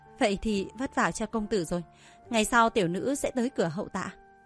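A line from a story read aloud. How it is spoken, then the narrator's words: Gentle warm smile. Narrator (Vietnamese): Lâm Lang nở nụ cười dịu dàng, như ngày xuân ấm áp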